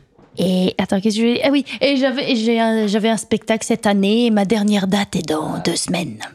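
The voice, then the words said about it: Slight Mayenne regional French accent. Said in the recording (French): “t'as un petit accent aussi... l'accent de la Mayenne”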